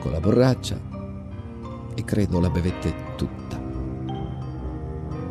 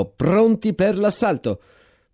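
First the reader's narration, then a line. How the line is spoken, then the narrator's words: Shouted. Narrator (Italian): Il capitano Bravini gridò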